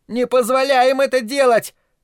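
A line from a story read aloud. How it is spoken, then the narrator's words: Wailing upward shout. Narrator (Russian): завопил Питер, подняв лицо к потолку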